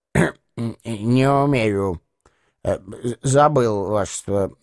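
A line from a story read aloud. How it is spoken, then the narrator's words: Muttering. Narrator (Russian): пробормотал он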